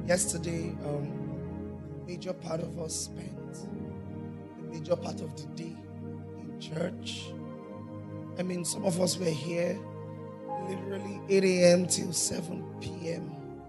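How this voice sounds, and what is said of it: Hoarse, strained, nearly lost voice. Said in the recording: “I've lost my voice yet again.”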